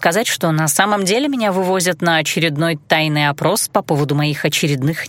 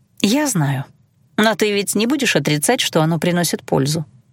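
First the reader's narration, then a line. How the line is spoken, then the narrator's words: Purring. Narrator (Russian): мурлыкнула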